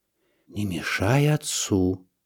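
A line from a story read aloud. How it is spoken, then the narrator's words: Anxious whisper. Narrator (Russian): шепнула мне мама, боясь помешать хирургу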